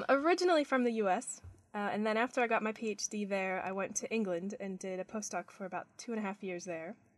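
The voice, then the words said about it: Muddled, non-Australian accent. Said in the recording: “that accent isn't really Australian ... my accent's a bit muddled now and it's kind of a chameleon thing. So I tend to sound like whoever I'm with.”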